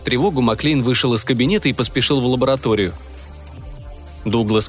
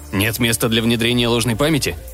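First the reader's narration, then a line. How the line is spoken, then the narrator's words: Irritated question. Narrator (Russian): раздраженно спросил Маклейн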